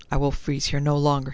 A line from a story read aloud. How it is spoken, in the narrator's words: muttered